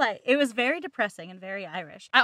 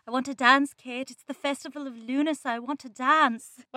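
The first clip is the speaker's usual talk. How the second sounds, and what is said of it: Put-on Irish accent. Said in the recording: “I can sometimes do an Irish accent ... she had to do an Irish accent”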